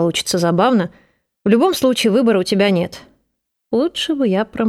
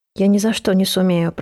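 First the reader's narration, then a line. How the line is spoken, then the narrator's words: Moaning. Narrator (Russian): простонала Камилла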